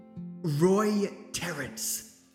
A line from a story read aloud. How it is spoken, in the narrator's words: he whispered